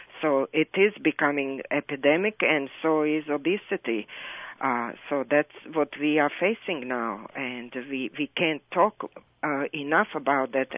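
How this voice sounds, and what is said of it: Foreign accent. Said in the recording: “my accent, so that's why I kind of am aware of this foreign accent”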